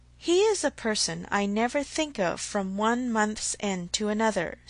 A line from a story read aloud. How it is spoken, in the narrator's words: said Mr